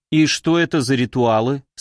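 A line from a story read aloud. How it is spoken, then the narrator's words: Plain. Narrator (Russian): спросила Юля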